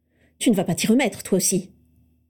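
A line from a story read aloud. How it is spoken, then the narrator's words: Hiss. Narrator (French): siffla Narcissa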